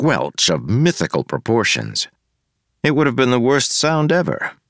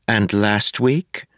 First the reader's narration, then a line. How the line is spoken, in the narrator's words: asked